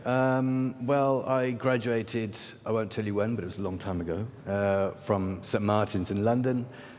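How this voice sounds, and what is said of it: Non-native English accent. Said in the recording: “People can hear from your accent you're not from here”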